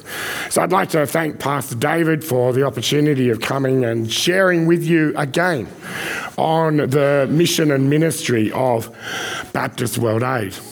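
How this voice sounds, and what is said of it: Hoarse, strained voice. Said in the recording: “you probably can hear that I'm on the verge of losing my voice”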